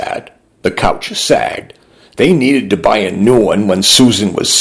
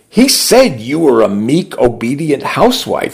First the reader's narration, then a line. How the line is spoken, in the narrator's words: she said